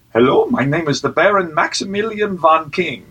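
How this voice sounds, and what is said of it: Put-on foreign Belgian accent. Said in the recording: “I'm saying I'm from Belgium, and I'm talking with a foreign accent ... It was a little more even accent-y than that”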